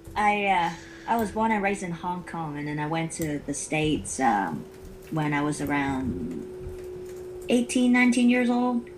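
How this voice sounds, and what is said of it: Mixed accent, possibly Southern American. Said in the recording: “is that a southern accent you've got there? ... Everybody tell me I have a lot different accents. ... I guess I pick up a lot of different accents. ... It's a very cool accent”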